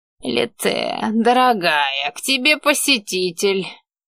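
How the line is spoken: Bitter, sarcastic. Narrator (Russian): желчным голосом сообщил маг

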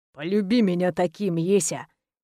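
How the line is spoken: Quiet, on exhale. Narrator (Russian): Тихо, на выдохе

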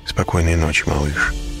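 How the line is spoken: Quiet. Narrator (Russian): тихо сказал я

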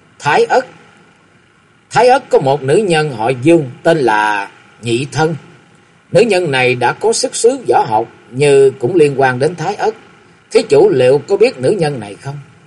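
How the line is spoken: Sudden blurt. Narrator (Vietnamese): Một cách khác thường, Võ Tăng Tịnh Pháp bật miệng thốt lên

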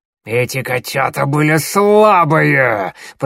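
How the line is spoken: Hissing close to ear. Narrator (Russian): прошипел звездолом, наклоняясь к самому уху Щербатой

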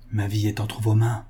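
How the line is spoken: Very soft murmur. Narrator (French): murmura tout bas M

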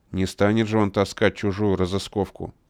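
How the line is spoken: Grumbling. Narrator (Russian): проворчал Битый Нос

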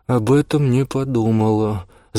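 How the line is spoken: Groaning. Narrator (Russian): застонала София

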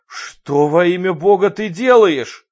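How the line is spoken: Yelling. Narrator (Russian): заорал Руди

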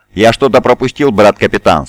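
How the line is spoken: Plain. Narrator (Russian): спросил Сантар

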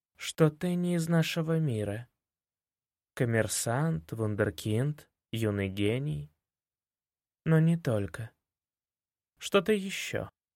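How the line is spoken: Slow, deliberate speech. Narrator (Russian): сказала она медленно

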